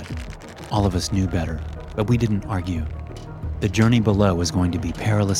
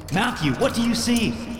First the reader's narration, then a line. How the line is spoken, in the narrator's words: I shouted